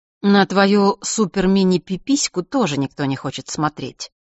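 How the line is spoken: Calm remark. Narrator (Russian): спокойно замечает Джулия

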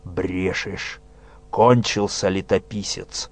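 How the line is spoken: Growled. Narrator (Russian): зарычал нечистый

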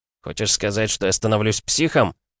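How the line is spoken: Near growl. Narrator (Russian): Чуть ли не зарычал я

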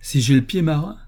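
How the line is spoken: Exclaimed. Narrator (French): s'écria-t-il

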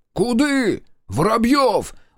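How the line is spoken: Loud yell. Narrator (Russian): заорал Марков

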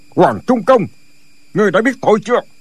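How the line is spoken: Harsh old man. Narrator (Vietnamese): Giọng của lão già vô cùng gay gắt

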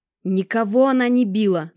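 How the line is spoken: Nervous outburst, female. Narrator (Russian): нервно выкрикнула вошедшая в комнату Алекс

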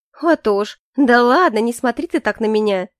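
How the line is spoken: Laughing. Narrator (Russian): рассмеялась

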